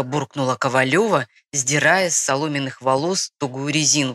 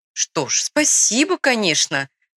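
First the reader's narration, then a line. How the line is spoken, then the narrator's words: Laughing. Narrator (Russian): рассмеялась Маргарита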